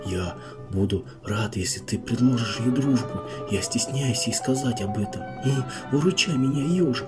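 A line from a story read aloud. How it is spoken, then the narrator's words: Whisper in ear. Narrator (Russian): Медвежонок прошептал на ухо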